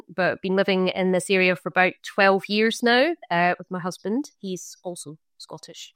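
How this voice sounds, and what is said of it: Scottish accent. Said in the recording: “I am obviously Scottish, my origin, as you can tell from the accent”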